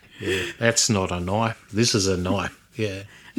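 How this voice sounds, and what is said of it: Bad put-on Australian accent. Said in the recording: “Someone's horrible Australian accent.”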